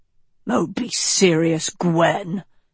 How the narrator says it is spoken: Lancelot growled

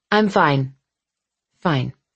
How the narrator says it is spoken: I mumbled

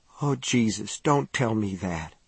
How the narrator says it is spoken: he whispered

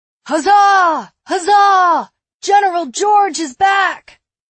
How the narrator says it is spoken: The crowd roared in approval

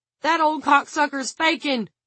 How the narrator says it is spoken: Carson Struthers shouted

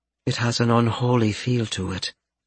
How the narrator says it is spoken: Stacia murmured

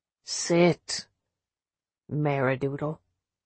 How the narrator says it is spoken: Dad said gently

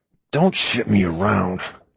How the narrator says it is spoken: he growled

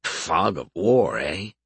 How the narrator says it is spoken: Alberich mumbled

